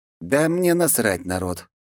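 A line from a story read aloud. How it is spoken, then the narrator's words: Glum. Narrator (Russian): уныло проговорил Игорь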